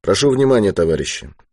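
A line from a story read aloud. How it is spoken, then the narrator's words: Plain. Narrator (Russian): сказал Ермаков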